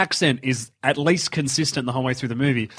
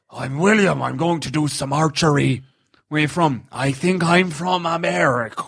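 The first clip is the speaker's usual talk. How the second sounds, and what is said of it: Imitates another person's accent. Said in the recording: “What's the accent?”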